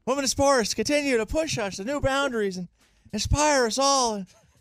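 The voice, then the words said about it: Joe Biden impression, elderly-sounding voice. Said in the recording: “Biden impression is really just like his geriatric Matt Mosley impression”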